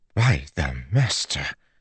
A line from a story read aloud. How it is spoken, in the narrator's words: breathed